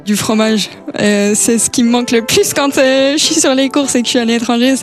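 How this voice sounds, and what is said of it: Strong Swiss French accent. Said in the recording (French): “on a un accent bien prononcé ... on a un fort accent ... mon accent”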